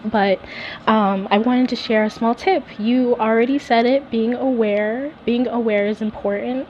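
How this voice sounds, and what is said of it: Congested, allergy-affected voice. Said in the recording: “Excuse my voice as I am fighting allergies right now.”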